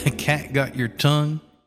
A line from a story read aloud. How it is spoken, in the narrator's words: He laughed a little